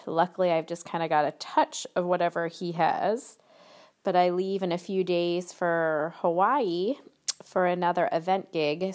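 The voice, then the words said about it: Slightly nasal, congested voice. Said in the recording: “I've got a little bit of a cold, so sorry if I sound a little more nasally than normal.”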